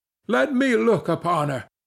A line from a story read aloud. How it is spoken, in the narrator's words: rejoined the mad youth more wildly